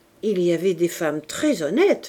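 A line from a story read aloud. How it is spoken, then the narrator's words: Plain. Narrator (French): dit Campardon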